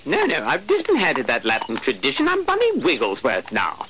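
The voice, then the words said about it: Effete, posh English British accent. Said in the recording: “he is this effete, very gay. ... English, British accent.”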